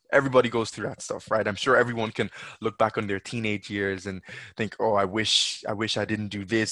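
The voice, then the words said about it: Mixed Nigerian, Irish-Jamaican, English accent. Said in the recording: “I had the Nigerian, and the Irish Jamaican, and then I spent some time in England. So, which is why my accent is what it is”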